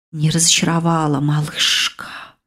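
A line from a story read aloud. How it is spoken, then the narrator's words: Approving familiar whisper. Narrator (Russian): одобрительно прошептала темнота подозрительно знакомым голосом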